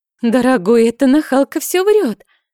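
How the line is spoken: Babbling. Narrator (Russian): залепетала Мадлен

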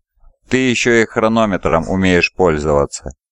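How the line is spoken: Guttural approving grumble. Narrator (Russian): Из-под разрисованного под череп шлема Сиватара донеслось гортанное, одобрительное ворчание

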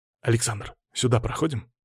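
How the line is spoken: Whisper. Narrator (Russian): шепнул он

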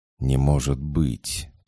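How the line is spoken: Brief whisper. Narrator (Russian): только и успел прошептать тот

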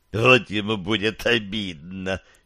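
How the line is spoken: Giggle. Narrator (Russian): хихикнул Горлогориус

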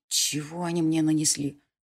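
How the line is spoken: Astonished whisper. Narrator (Russian): шепотом поразился Конор

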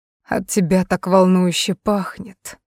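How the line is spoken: Male murmur. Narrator (Russian): пробормотал он

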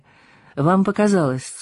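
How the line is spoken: Dry reply. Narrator (Russian): сухо отозвалась она

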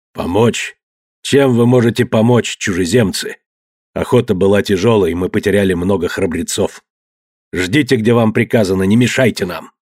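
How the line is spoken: Rude, gruff. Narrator (Russian): Распорядитель грубо сказал

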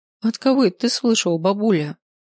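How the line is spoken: Giggling. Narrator (Russian): хихикнула Эля

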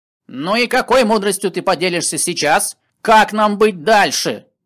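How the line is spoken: Angry shouting. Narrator (Russian): злясь, кричал гном

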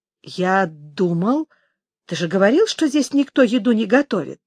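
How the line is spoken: Confused. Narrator (Russian): растерянно сказал Аарон

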